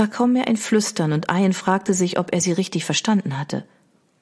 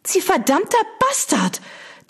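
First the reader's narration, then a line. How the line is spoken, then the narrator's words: Shrieking. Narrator (German): Das Mädchen kreischend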